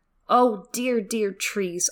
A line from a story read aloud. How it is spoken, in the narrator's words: I cried